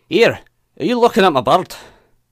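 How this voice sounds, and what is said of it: Put-on Scottish accent. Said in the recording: “I'm not that great at accents anymore ... That's pretty good. ... it's probably offensive to like most Scottish people that sound nothing like that. ... See, I'd have gone deeper.”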